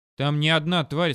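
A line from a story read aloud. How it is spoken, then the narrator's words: Plain. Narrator (Russian): сказал Сэм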